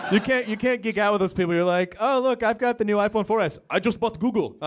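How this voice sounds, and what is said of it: Impression of Kumail's accent. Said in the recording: “I didn't mean to do that accent. ... it's a good impersonation, Kumail.”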